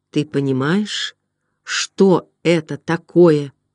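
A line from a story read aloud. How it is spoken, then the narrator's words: Quiet speech. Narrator (Russian): Хедрон тихо произнес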